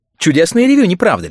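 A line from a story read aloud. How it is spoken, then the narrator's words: Exclaiming. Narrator (Russian): воскликнула Милдред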